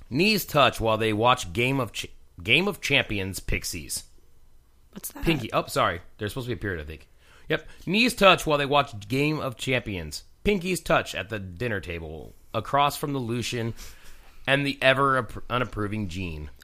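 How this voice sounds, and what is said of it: Sick, nasal voice. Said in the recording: “and I are both sick, so both of our voices sound absolutely fantastic ... I'm gonna use it very nasally”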